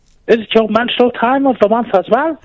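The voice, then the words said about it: Man putting on a woman's voice. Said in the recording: “impersonate a lady ... That's actually quite good.”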